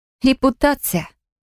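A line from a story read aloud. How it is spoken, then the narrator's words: Knowing snort. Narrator (Russian): понятливо хмыкнула Фелия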